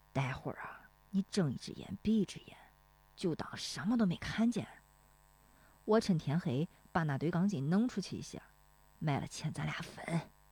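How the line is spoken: Stern low voice. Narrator (Chinese): 大棒槌不笑了，绷着脸压低声音说

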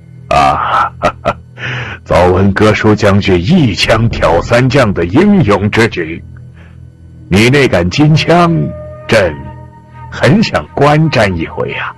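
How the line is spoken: Laughing. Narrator (Chinese): 李隆基…笑道

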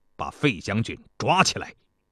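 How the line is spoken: Angry. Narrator (Chinese): 他怒冲冲地 对士兵们说

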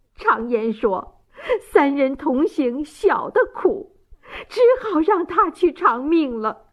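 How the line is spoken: Choked sobbing. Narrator (Chinese): 王大妈泪流满面，泣不成声，哽咽道

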